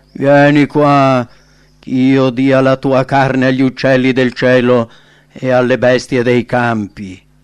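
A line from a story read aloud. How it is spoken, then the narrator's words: Mocking shout. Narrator (Italian): lo derise gridando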